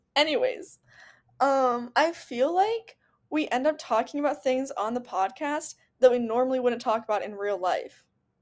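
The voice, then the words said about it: Tired, weary-sounding voice. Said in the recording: “I sound weird, I'm really tired ... I'm exhausted. I can't finish sentences.”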